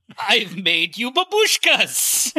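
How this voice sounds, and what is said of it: Vague foreign accent, unplaceable origin. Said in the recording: “with an accent of no known origin”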